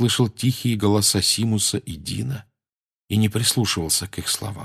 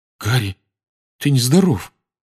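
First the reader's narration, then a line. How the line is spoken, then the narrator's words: Trembling voice. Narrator (Russian): проговорил он дрожащим голосом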